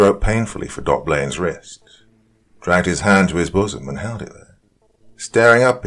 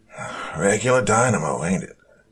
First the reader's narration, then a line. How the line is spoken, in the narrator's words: he gasped